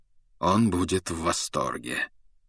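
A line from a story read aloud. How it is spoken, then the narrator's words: Cold remark. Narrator (Russian): холодно заметил Люпин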